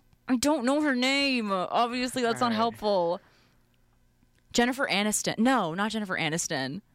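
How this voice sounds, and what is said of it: Usual voice. Nothing is said of it.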